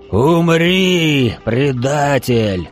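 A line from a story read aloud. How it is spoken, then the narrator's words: Angry roar. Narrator (Russian): Взревел в ответ разозленный завхоз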